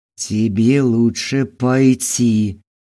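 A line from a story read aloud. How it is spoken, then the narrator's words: Near growl. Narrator (Russian): почти прорычал Костя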